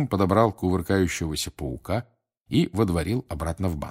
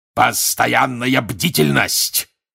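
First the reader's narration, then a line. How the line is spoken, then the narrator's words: Barked. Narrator (Russian): рявкнул он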